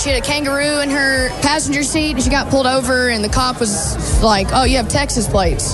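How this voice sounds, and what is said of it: Broad American accent. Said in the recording (Dutch): “dat plat Amerikaanse accent”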